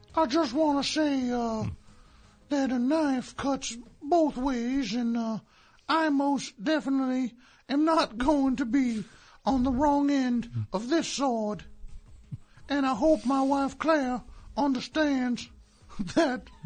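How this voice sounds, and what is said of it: Impression of a TV drama character. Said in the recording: “Is that a Kevin Spacey impression? ... It's Frank Underwood. ... As performed by Kevin Spacey.”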